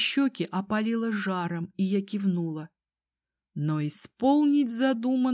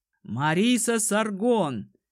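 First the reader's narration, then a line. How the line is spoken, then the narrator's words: Commander's booming voice. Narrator (Russian): прогремел голос командира отряда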